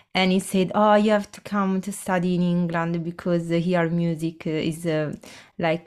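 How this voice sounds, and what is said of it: Italian accent. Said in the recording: “I can tell from your accent that you're not originally from the UK ... I'm Italian”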